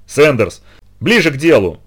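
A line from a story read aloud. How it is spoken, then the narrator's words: Barked. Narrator (Russian): рявкнул Рот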